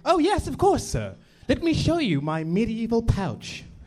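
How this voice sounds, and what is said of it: Put-on English accent. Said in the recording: “I speak this way because it's easier to get around ... I highly recommend you adopt an English accent”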